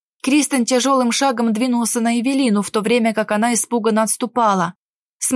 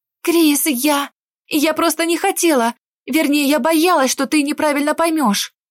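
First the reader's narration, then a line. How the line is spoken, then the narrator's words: Flustered girl's babbling. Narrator (Russian): Взволнованно лепетала девушка, пытаясь оправдаться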